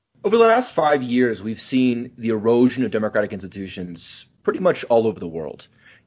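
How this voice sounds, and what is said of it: American English accent. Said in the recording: “as you can probably tell from my accent, I'm originally from the United States”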